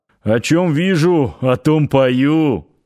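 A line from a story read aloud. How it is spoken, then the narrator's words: Chuckle. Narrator (Russian): хохотнул Парсыкин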